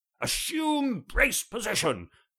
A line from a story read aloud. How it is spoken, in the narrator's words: bellowed Sean, a little melodramatically